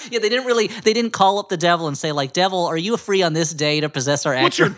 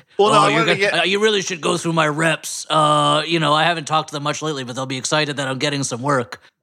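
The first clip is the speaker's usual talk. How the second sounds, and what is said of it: Kevin Spacey-like put-on accent. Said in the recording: “Kevin Spacey doing a new accent.”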